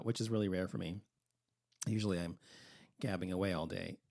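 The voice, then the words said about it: Hoarse voice. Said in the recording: “I guess I'm so hoarse because I haven't been talking all day long”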